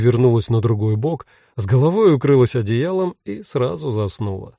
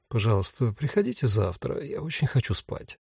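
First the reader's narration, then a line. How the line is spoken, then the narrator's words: Mumbled. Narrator (Russian): пробормотала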